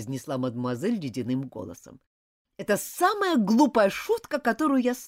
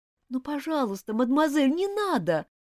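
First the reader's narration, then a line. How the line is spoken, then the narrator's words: Pleading. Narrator (Russian): взмолилась бедняжка Элизабет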